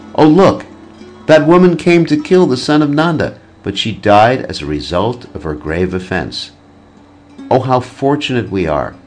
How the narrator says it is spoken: Upon seeing Krishna, the gopis cried out

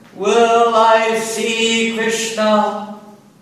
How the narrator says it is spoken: Mad in ecstatic love, the Lord roared and cried out

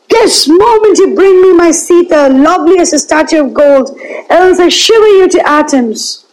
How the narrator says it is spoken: Like an angry lion roared

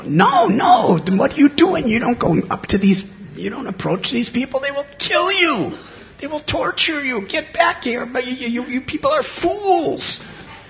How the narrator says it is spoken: They were screaming out

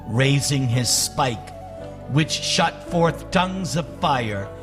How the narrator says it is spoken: he exclaimed

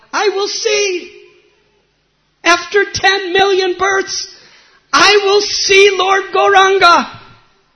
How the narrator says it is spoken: he cried out

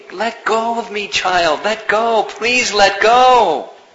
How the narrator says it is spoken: screaming

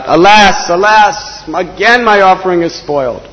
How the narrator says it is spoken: he cried out

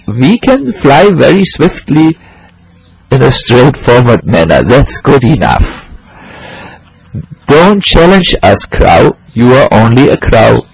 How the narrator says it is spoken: The swans laughed and said

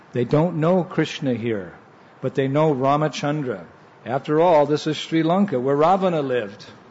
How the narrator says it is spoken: He whispered

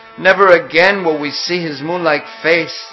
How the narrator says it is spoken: they said

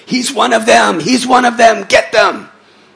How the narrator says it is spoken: they would scream out to the public

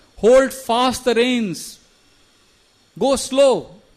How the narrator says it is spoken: they all start shouting to Sumantra

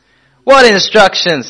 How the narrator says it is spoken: said Prabhupada loudly

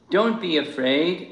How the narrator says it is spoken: Krishna called out to the gopis

